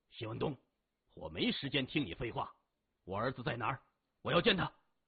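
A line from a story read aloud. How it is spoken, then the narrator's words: Loud. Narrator (Chinese): 李世明大声说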